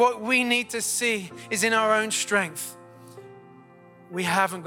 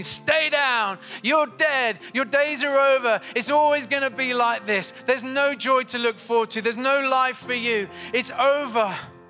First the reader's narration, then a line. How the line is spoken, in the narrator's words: this massive giant is mocking you and he's shouting at you and he's saying